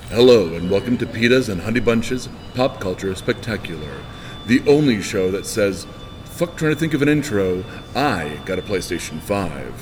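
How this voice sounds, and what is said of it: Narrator voice. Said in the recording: “you actually did all of that in your little ... My little narrator voice.”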